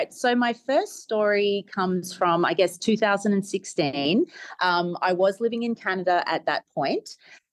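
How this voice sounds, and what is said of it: Australian accent. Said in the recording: “originally from Brisbane, Australia. ... I love that accent. It's so gorgeous.”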